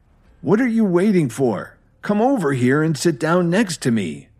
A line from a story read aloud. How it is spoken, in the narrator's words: Meriwether shouted at them